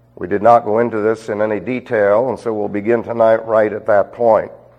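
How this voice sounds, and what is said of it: Scratchy congested sinus-affected voice. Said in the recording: “As you can obviously tell by my voice, I am suffering from a sinus thing... You'll have to just put up with the scratches.”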